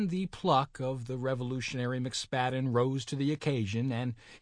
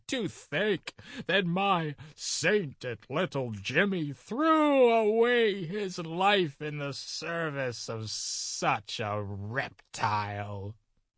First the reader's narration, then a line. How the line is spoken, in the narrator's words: their mother, who burst into tears and exclaimed